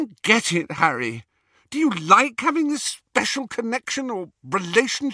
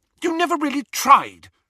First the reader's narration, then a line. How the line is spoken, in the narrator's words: she said hotly